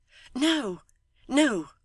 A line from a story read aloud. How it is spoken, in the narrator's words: she returned hastily